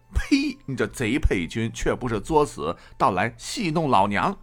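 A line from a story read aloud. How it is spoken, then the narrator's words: Woman, laughing. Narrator (Chinese): 那妇人笑着寻思道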